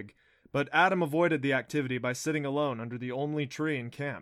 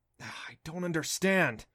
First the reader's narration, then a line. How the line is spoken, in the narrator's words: he muttered to himself